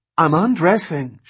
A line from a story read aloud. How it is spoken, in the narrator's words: she said in a thin, agonized voice